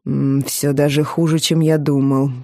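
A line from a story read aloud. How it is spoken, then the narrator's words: Muttered. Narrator (Russian): пробормотал он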